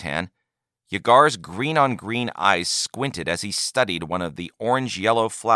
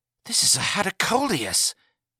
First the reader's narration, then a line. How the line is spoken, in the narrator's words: gasped Yagar